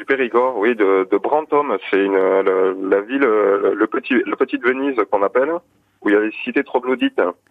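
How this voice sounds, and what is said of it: Slight Périgord regional French accent. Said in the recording (French): “ce magnifique petit accent périgourdin, absolument pas réunionnais”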